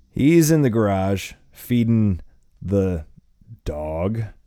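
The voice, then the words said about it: Faded German accent. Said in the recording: “speaking in a faded German accent”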